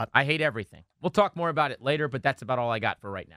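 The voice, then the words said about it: Hoarse, strained, nearly lost voice. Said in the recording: “I don't have a voice ... Screaming so much last night at the TV.”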